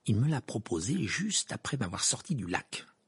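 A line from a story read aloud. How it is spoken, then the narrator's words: Mumbled. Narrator (French): marmonna Hermione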